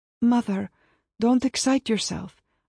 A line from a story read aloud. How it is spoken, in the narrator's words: I begged